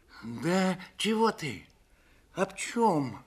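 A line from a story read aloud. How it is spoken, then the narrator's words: Confused, faltering start. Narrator (Russian): растерянно начал было Федор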